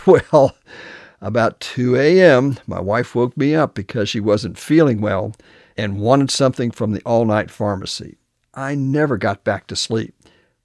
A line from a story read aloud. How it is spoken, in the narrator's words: He hadn't got much sleep the night before, he chuckled